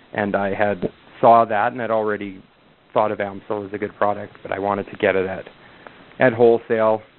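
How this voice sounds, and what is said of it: Distinctive regional accent. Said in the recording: “you have a distinctive accent”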